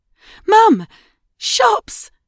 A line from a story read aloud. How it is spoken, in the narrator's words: Edie squealed